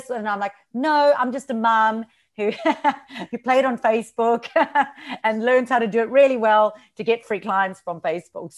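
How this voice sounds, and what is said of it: Slight regional accent. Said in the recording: “I can hear a little bit of the accent.”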